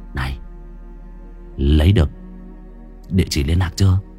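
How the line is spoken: Whisper in the ear. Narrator (Vietnamese): nó thì thầm vào vai tai tôi

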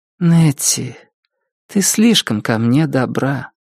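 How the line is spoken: Soft. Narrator (Russian): мягко сказала Полли

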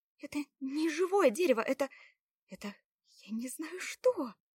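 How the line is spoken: Frightened near-whisper. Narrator (Russian): Уже тише, испуганно добавила она и почти шепотом сказала

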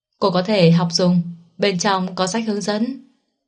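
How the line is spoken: Hurried, faint wry laugh. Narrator (Vietnamese): Mạnh Tư Thành trong lúc cấp bách cười nhạt

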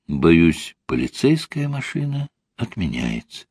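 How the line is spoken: Quiet. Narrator (Russian): тихо сказала Ольга

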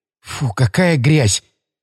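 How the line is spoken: Disgusted mutter. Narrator (Russian): пробормотала она, брезгливо

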